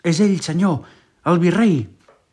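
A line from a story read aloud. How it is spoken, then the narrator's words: Shouted. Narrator (Catalan): cridava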